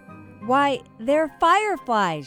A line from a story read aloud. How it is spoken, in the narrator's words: exclaimed